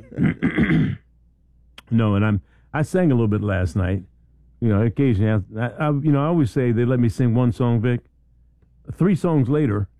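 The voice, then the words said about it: Slightly raspy voice. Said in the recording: “I'm operating right now with a cough drop in my mouth because I'm a little raspy.”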